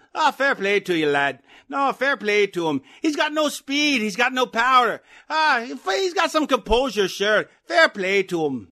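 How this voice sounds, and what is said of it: Conor McGregor impression, Irish accent. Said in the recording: “my best impression ... that's either Conor McGregor or the Lucky Charms guy ... Conor McGregor”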